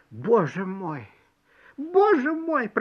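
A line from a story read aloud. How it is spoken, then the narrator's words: Moaning. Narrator (Russian): простонала мышь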